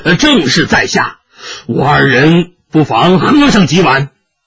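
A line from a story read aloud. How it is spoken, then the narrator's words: Hearty laughter. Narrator (Chinese): 韩章大笑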